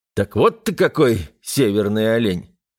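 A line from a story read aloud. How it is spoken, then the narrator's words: Snorting smirk. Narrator (Russian): хмыкнул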